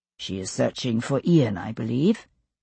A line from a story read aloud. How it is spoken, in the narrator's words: he said quietly